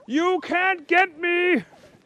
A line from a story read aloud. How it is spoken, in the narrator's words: shouted Detective Inspector Picklesworth